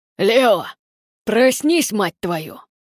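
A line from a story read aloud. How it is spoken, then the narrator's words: Furious growl. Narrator (Russian): прорычал генерал Клеандр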